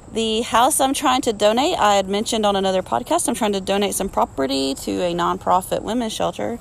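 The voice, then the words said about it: Hoarse, fading voice. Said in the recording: “I'm still kind of losing my voice a bit”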